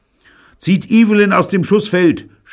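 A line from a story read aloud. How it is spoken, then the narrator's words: Shouted. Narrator (German): schrie Neil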